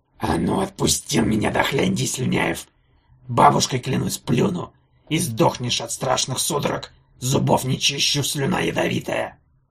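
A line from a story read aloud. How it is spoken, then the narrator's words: Hissing. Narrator (Russian): Антигон шипел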